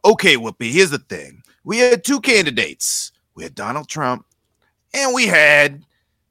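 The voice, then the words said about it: Imitates another person's voice. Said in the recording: “I've actually been really liking doing Stephen A. Smith lately”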